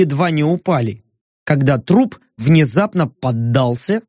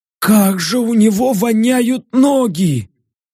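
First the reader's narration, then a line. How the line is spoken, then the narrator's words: Hoarse wheeze. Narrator (Russian): Просипел Баск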